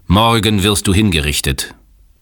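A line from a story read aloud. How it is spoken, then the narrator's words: Thundering sheikh. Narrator (German): donnerte der Scheich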